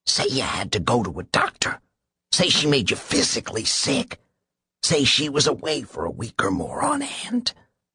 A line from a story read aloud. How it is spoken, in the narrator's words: his lawyer whispered